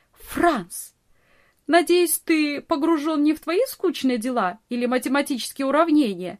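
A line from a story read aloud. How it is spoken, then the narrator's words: Laughing, teasing scold. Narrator (Russian): Смеясь, журила его Нони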